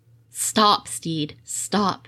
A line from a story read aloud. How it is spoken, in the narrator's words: he said